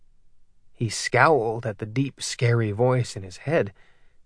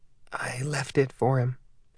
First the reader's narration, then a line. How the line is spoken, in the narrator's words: she whispered